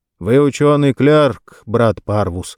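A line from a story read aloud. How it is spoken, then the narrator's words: Calm, restrained. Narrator (Russian): сказал спокойно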